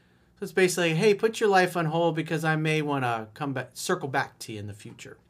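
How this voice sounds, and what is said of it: Usual voice. Nothing is said of it.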